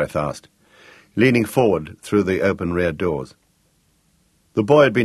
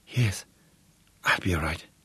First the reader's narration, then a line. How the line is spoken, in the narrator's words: Gregorius whispered